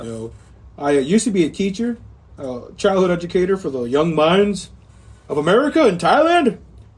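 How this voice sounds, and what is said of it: Strange inspirational teacher voice. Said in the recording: “doing that voice? That's a really strange voice to go with. ... This is my inspirational teaching voice.”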